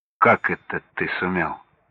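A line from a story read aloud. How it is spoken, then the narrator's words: Calm father. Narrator (Russian): спокойно, будто ничего особенного не произошло, заметил отец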